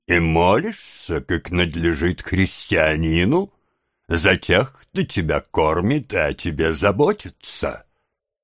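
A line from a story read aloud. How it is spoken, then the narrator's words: Stern voice. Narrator (Russian): суровым голосом сказал другой джентльмен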